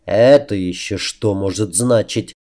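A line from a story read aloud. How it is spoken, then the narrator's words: Gloomy mutter. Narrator (Russian): хмуро пробурчал себе под нос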